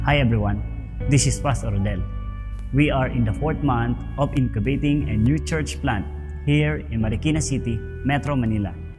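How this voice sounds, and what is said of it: Filipino accent. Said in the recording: “Hopefully you can pick up on the accent, his Filipino accent.”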